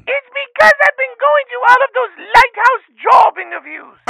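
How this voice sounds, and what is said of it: Hoarse grandmother character voice. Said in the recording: “you're sounding a little bit hoarse this morning”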